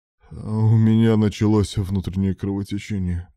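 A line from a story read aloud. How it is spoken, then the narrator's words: Moaning. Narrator (Russian): простонал Руслан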